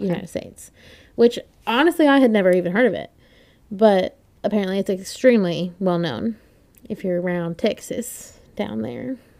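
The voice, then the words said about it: Put-on Texas accent. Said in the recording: “that was my attempt at a Texas accent ... Yeah, that was good. Sorry. That was great.”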